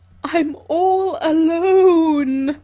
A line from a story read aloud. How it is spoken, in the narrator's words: I say, and howl out loud for emphasis